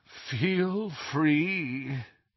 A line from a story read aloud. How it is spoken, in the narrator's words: groaned the statue